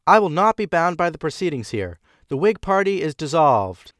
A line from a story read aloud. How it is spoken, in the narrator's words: Wilson shouted